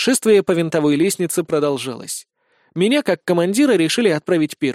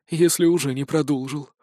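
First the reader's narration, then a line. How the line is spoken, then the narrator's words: Sighing. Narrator (Russian): вздохнул Сисюля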